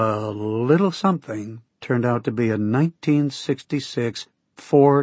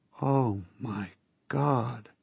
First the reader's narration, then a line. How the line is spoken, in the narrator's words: said in a faint voice